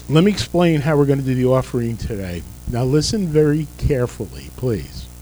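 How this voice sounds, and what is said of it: Strained, fading voice. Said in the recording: “apologize for my voice. I'm losing it.”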